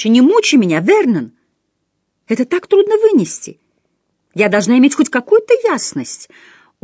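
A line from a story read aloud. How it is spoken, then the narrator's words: Exclaiming almost crying. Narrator (Russian): она однажды воскликнула чуть не плача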